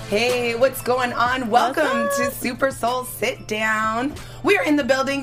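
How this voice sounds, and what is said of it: Lively, energetic party voice. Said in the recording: “ever vibrant, always lit, because you can hear it in my party voice.”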